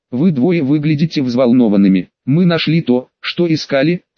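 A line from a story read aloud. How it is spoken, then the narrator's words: Plain. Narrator (Russian): сказала Полумна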